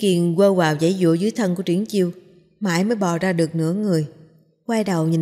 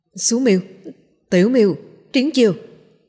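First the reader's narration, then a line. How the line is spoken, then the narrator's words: Shouted string of names. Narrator (Vietnamese): Bạch Ngọc Đường hét lên một tràng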